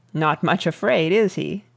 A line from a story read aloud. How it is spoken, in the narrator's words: asked the Earl dryly